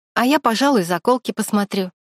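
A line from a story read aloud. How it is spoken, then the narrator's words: Cheerful. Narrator (Russian): весело сказала Аня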